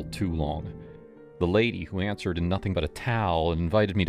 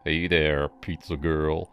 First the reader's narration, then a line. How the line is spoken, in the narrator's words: he drawled, his voice thick like he'd been hitting the bottle